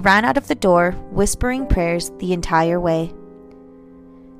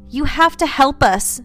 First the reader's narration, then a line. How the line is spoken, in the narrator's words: Gianna shouted